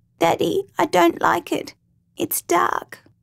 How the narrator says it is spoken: unable to understand why his parents couldn't get him out, William whimpered

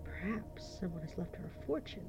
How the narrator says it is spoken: Jessie whispered

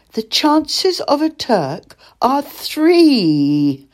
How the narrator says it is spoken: cried

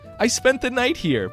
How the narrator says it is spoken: Bokun blurted out in a panic

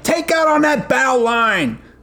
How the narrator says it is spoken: He yelled at me

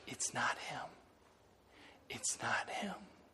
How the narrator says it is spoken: whispers

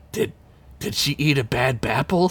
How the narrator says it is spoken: Sid whispered to Ugla

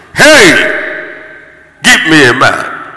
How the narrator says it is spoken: Goliath came out and shouted

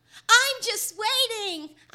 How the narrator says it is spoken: I yell back

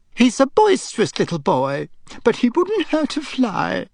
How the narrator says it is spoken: Aunt Petunia had said tearfully

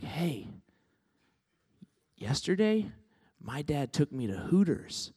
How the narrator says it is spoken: is telling, he's kind of whispering

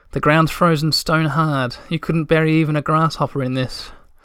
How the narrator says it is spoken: said Tutiki sadly

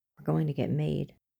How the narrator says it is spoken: Scully whispered

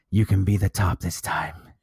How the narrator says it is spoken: Samuel whispered huskily into Eli's ear

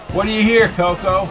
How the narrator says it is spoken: shouted over the music

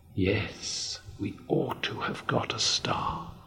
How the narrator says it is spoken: whispered Moomin Mama

